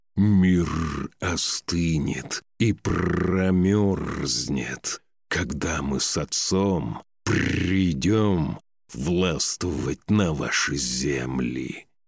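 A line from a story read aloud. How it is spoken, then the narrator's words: Wolf's growl. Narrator (Russian): прорычал волк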